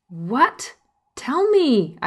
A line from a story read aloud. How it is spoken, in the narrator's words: exclaim